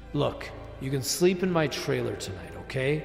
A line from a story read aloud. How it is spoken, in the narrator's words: said Francois